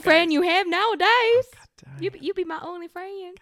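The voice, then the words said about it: Bad put-on Australian accent. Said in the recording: “my Australian accent. Oh my God, I can't do it ... it's so bad.”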